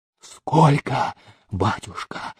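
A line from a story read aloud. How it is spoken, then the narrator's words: Hoarse rasp. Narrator (Russian): прохрипел он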